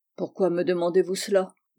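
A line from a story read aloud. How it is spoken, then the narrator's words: Stern tone. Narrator (French): dit Georges d'un ton sévère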